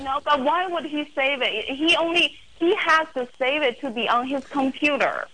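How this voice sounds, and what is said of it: Chinese-accented English. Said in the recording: “What is her accent? ... What is your accent from? ... Chinese.”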